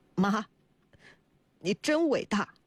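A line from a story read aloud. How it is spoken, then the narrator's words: Choked voice. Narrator (Chinese): 贺子浩 声音哽咽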